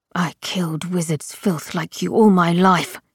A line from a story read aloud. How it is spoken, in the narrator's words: snarled the sleeper